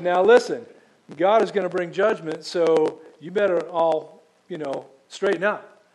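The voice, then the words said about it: Put-on Southern accent. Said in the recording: “prophets spoke in the southern accent.”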